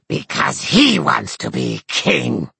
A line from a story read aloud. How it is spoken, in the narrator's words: snarled Eohaid